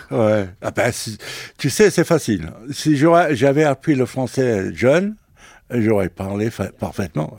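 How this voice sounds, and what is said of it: French spoken with English accent. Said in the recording (French): “l'Italien qui parle français avec un accent anglais”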